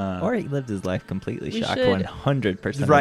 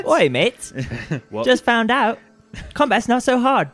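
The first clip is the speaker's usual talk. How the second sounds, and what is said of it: Put-on New Zealand accent. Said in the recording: “he speaks in like a New Zealand accent”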